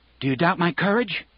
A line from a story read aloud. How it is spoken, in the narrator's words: Raymond asked